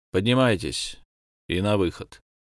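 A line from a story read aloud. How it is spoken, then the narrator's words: Rough addition. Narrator (Russian): грубо добавил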